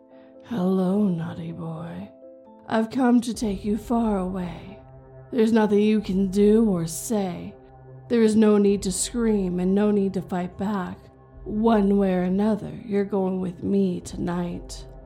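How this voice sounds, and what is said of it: Raspy monster voice. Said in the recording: “raspy”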